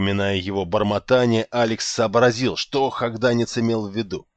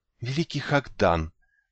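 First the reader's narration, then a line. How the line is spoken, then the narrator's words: Languid whisper, girl. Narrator (Russian): томно прошептала девочка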